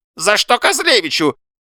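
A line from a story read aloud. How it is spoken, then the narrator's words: Shrill squeal. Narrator (Russian): завизжал Паниковский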